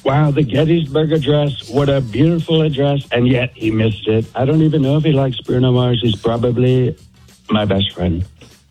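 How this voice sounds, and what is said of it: Imitates another person's voice. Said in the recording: “I can do Trump ... Let's hear President Trump ... Okay, that's really good ... we don't get people that do good impressions”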